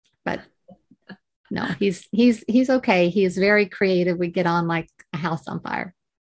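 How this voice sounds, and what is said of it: Speaks with a retained accent. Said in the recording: “you've retained your accent, which is amazing”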